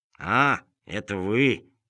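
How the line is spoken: Dry reply. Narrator (Russian): сухо ответил Крот

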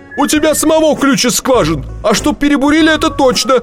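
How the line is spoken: Shouting. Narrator (Russian): кричал инженер

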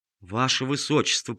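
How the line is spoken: Muttered. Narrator (Russian): пробормотал он

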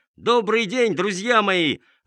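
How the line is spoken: Ringing trumpet-like shout. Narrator (Russian): закричал звонким голосом, который прозвучал в подземелье, как труба

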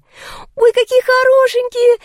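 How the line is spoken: Squealing. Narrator (Russian): завизжала Лика

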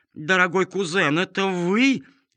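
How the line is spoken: Shouting. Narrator (Russian): закричала графиня-старшая

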